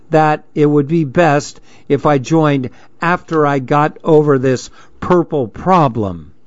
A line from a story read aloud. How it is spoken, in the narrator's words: I said slowly